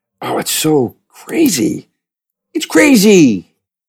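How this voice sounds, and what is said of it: Imitates another person's voice. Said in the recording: “That's my Sam Rockwell impression. ... That's my Sam Rockwell.”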